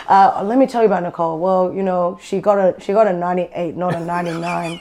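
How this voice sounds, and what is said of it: Imitating her father's accent. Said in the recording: “You do the accent and everything. ... I do the accent.”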